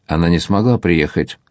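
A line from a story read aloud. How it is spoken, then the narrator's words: Plain. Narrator (Russian): ответила Сендадо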